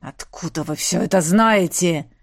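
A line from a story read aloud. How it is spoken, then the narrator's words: Growl. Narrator (Russian): рыкнул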